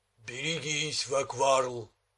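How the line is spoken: Booming thunderous voice. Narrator (Russian): прогудел громовой голос

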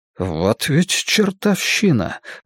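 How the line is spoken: Muttering. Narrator (Russian): пробормотал Крамли

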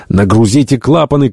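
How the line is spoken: Shouted command. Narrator (Russian): крикнул Шандон

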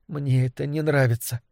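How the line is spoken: Muttered. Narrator (Russian): пробормотала Триша

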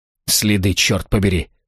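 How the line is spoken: Snorting. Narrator (Russian): фыркнул Шпильман

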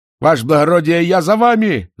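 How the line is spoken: Excited shout. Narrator (Russian): закричал он, от волнения забыв откозырять

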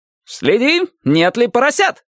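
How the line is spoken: Shout. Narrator (Russian): крикнул Лейн

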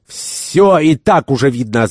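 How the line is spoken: Furious shouting. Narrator (Russian): закричал господин Керабан в крайней ярости

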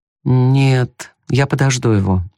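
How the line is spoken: Dejected voice. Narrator (Russian): упавшим голосом проговорила Мардж

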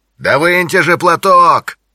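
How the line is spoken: Distant shout. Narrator (Russian): крикнул из машины Джонни

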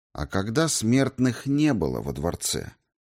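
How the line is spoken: Quiet question. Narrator (Russian): тихо спросил я

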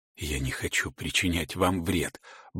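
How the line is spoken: Muttered into ear. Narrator (Russian): бормочет он ей в ухо

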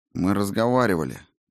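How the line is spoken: Gloomy repetition. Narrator (Russian): мрачно повторила Клара

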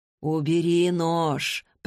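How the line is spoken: Deep husky female voice. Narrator (Russian): проговорил глубокий, хрипловатый женский голос

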